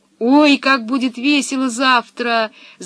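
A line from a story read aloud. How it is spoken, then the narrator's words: Ecstatic yell. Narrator (Russian): завопил от восторга Томми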